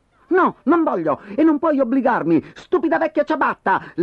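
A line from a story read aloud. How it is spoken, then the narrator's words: Shrieked mockingly. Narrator (Italian): le strillò facendole le boccacce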